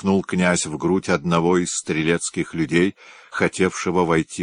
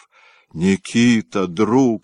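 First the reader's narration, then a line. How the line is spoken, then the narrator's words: Sobbing. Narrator (Russian): рыдая, произнес Ростовский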